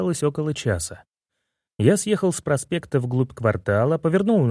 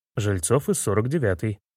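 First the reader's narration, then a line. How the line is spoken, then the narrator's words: Plain. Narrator (Russian): ответил я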